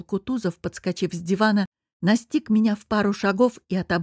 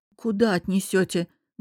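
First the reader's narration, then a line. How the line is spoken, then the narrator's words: Startled, stunned forced words. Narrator (Russian): Вздрогнув от его рыка, ошарашенно выдавила я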